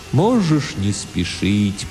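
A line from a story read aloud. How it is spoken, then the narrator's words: Strange, sad, distant, philosophical voice. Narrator (Russian): произнес Тимулки очень странным, грустным, далеким, философическим голосом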